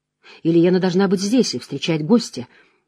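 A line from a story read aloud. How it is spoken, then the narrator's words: Absent-minded mutter. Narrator (Russian): отсутствующим тоном пробормотал он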